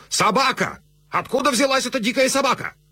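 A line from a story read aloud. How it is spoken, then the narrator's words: Sudden frantic shout. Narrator (Russian): Ординарец Гурго вдруг суматошно закричал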